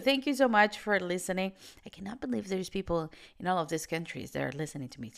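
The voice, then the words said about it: American accent. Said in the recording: “this Venezuelan girl with an American accent”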